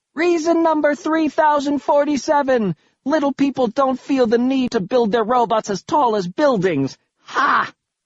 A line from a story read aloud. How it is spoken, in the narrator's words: scream out